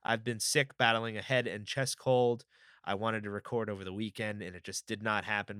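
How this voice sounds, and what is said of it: Slightly raspy voice. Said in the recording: “my voice is still a little raspy.”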